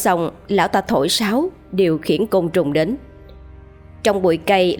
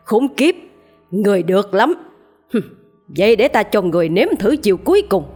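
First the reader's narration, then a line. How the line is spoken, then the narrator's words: Old man's furious roar. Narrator (Vietnamese): Lão thầy Tàu chứng kiến từng con ma sói của mình bị bùa của sư phụ cắt cổ chết thì lão ta gầm lên giận dữ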